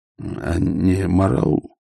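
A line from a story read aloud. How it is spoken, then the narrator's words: Mutter. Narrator (Russian): пробормотал Ваймс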